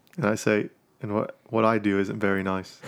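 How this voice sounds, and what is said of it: Put-on Australian accent. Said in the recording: “I said it in Australian accent too.”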